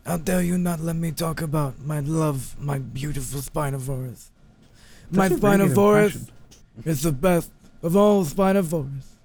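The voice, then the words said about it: Godfather-style Italian mobster impression. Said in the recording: “I imagine Don Vito Corleone ... That's actually a really good impression.”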